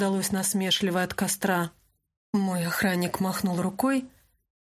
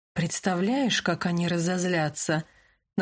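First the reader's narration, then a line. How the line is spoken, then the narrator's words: Mocking, encouraging. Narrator (Russian): насмешливо сказал Себастьян, пытаясь подбодрить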